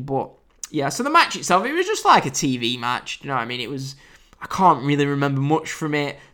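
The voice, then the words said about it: British accent. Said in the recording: “I'm in the UK, as you can tell by my lovely accent”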